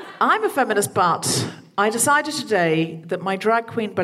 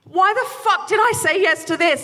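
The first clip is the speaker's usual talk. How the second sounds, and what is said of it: Shouting. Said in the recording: “I'm shouting at the sky”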